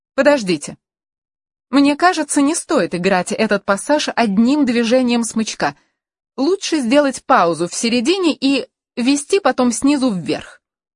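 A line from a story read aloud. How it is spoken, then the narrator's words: Sharp. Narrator (Russian): Каролина не произнесла резко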